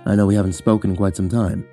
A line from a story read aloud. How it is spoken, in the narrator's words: he said quietly